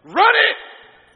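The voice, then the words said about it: Loud shouted command. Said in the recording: “that's as loud as she said it from the back seat ... That's tone of voice”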